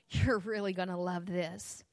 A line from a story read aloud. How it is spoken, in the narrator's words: said with a chuckle